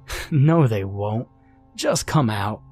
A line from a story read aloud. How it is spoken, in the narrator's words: Sam laughed